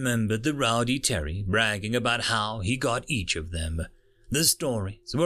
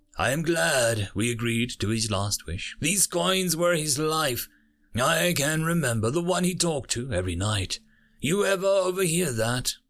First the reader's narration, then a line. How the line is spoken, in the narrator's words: Zanta said wistfully